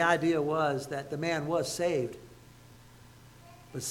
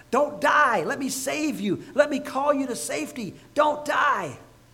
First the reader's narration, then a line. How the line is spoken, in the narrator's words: We'd be screaming at him at the top of our lungs